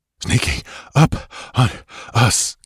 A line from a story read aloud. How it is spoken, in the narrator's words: gasped Balthus